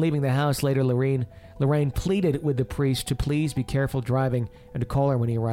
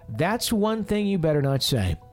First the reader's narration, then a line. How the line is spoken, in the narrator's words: Ed exclaimed